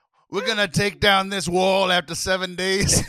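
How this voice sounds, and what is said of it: Bad Italian mob boss impression. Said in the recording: “that is definitely a mob boss ... my very bad Italian mob impression ... an Italian mob impression”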